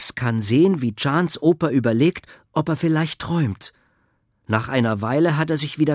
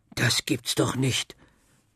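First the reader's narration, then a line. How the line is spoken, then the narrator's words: Incredulous mumble. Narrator (German): murmelt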